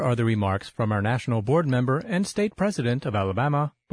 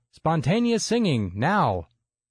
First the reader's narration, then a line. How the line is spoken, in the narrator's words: Alan's shouted instruction